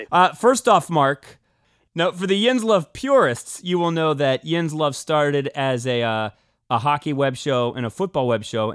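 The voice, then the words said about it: Pittsburgh accent. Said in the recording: “that Pittsburgh accent”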